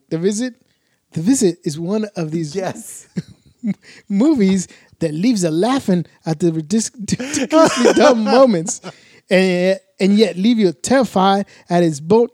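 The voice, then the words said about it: Put-on accent, unclear which. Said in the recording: “Now I don't even know what the accent I'm doing. I'm just gonna do it normal.”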